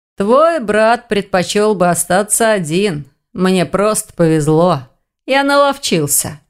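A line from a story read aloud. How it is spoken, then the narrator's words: Drawled with a smile. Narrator (Russian): протянул с улыбкой оборотень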